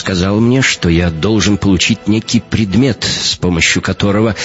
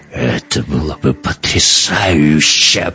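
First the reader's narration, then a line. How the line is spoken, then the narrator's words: Growled. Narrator (Russian): прорычал Эккарт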